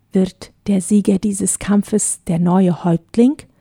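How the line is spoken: Whispered question. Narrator (German): fragte Peter Wagner flüsternd seinen Begleiter

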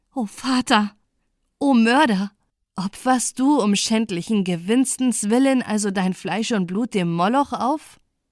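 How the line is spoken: Exclaiming, female. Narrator (German): rief sie aus

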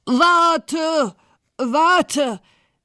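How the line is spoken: Frog calling out. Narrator (German): rief der Frosch

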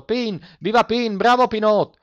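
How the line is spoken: Noisy group cheering. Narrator (Italian): Quelli di Borgo Po fecero un grande schiamazzo, gridando

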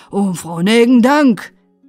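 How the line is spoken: Call. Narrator (German): rief dann Herr Maifeld

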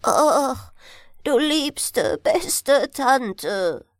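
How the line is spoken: Wailing. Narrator (German): jammerte er

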